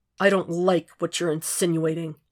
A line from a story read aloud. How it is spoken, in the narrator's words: Jack said tightly